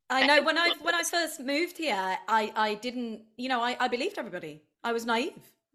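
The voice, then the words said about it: British accent. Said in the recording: “I love a British accent ... you're in a Brit in LA”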